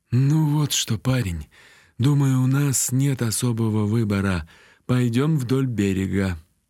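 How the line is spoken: Sigh. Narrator (Russian): вздохнул Биар

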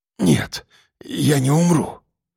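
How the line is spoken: Hoarse rasp. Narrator (Russian): прохрипел он

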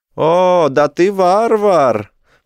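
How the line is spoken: Shout. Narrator (Russian): прокричал прыщавый

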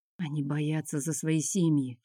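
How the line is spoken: Whispered. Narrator (Russian): шепнул Миленко

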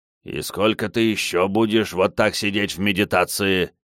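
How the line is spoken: Displeased grumbling. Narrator (Russian): недовольно проворчал Медзи

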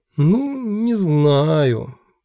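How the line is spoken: Drawl. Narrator (Russian): протянул Квентин

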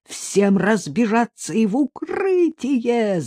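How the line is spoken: Wild, unrecognizable yell. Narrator (Russian): заорал он не своим голосом

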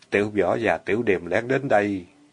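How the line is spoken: Lowered voice. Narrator (Vietnamese): hạ giọng nói

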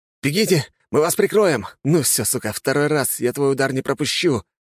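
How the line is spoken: Hissing, spitting blood. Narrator (Russian): прошипел рыжий, сплюнув кровь

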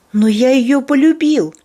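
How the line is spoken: Exclamation, teenage boy. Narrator (Russian): Воскликнул Анжел, которому не было еще и 16

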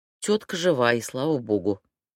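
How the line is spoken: Sighed. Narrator (Russian): вздохнула

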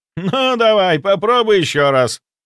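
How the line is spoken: Loud laughter. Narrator (Russian): Ростислав захохотал

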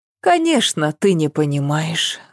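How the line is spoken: Sighing. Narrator (Russian): вздохнула Ася

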